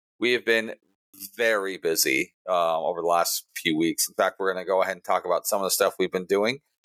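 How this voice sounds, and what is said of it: Hoarse, strained voice. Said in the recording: “my voice is barely coming back to me. It was pretty much gone for 2 days”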